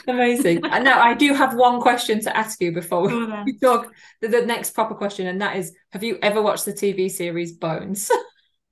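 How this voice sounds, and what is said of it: Strong northern English accent. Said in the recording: “I do have a very northern accent ... any word that has the O noise in it is very difficult to understand what I'm saying”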